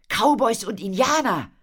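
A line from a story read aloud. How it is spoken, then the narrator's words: Called out. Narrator (German): rief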